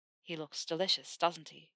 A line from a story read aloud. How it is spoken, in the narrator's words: Theo murmured against her ear